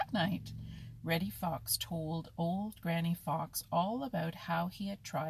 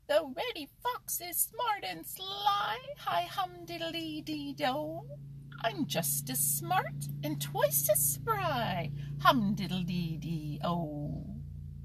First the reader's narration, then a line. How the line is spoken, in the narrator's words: In his funny little squeaky voice, Danny shouted